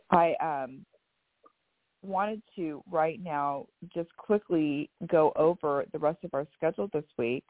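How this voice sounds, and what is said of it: Raspy, choppy sore-throat voice. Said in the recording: “I'm a little under the weather ... I have a sore throat, so every couple words gets caught in my throat ... my raspy voice and choppy voice”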